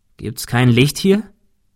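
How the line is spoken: Plain. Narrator (German): fragte Thomas

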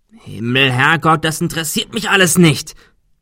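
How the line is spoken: Shouting. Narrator (German): schrie Adrian

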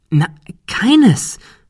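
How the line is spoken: Excited. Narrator (German): erklärte Ben aufgeregt

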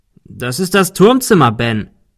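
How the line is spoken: Calling out. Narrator (German): rief Arthur

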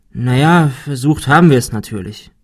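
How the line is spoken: Sighing. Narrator (German): seufzte Ben

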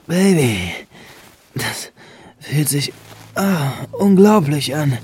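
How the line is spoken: Louder moaning. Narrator (German): stöhnte Benjamin nun etwas lauter

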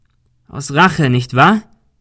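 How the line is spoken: Calling out. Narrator (German): rief Ben

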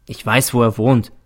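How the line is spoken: Plain. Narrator (German): sagte ich

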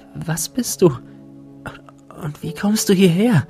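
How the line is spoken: Breathless question. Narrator (German): fragte atemlos

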